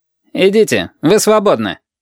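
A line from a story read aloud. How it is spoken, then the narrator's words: Curt. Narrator (Russian): сказал отрывисто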